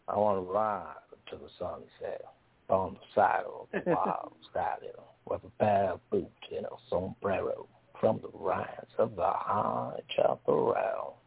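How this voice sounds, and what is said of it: Put-on Southern accent. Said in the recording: “I would have done this in a southern accent. I would have tried it in a southern accent.”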